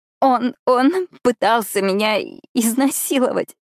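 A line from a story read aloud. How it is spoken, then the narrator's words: Sobbing. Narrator (Russian): всхлипываю я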